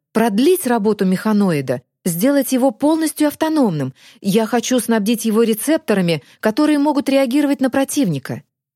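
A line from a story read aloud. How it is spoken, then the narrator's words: Exclaiming. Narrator (Russian): воскликнул профессор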